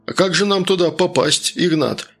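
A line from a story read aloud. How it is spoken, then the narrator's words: Surprised question. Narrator (Russian): удивленно спросил он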